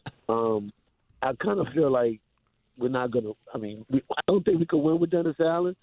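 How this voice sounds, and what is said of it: Strained, hoarse voice. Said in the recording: “I'm losing my voice here”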